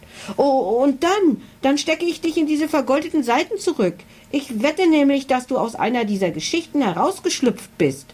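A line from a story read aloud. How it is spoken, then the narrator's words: Shrill voice. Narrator (German): fuhr Emily mit schriller Stimme fort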